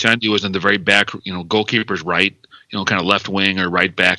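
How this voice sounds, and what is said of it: American accent. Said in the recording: “someone with American accent”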